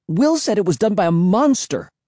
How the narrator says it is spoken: exclaimed

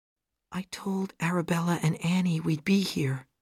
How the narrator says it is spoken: she said quietly

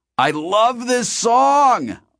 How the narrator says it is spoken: Artemis shouted

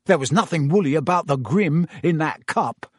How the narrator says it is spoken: said Ron hotly

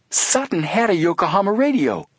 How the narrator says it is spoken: Joe exclaimed

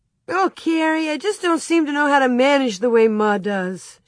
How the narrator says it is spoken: she almost wailed

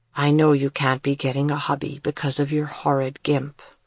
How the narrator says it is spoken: he said in a low, apologetic voice

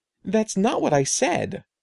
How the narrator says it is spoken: Eddie exclaimed

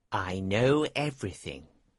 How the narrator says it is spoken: he told the King quietly

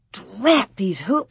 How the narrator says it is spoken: she muttered

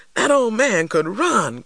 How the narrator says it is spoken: cried Papa

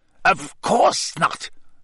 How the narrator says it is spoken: Snape snapped

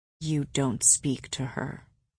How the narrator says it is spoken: Asriel said softly

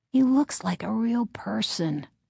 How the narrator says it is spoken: thought sleepily

